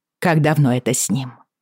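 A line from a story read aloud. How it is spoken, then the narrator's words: Sharp question. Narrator (Russian): резко спросила я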